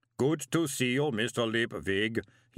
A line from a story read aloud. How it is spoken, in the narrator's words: he boomed cheerfully